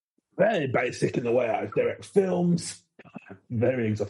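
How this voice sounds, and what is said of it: Imitates another person's voice. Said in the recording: “I can't do the Michael Winner accent, but... That's perfect... That's better than mine.”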